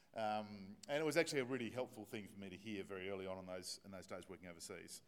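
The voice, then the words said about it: Australian accent, fast speech. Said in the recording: “my Australian accent was just a little bit hard to follow, that I spoke too fast”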